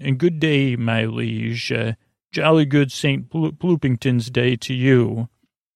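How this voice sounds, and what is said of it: Put-on English accent. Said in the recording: “in this English accent.”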